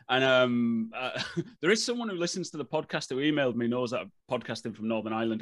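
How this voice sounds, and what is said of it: Irish-tinged English accent. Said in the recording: “as you can tell, because I picked the accent up ... you've got such a lovely Irish accent”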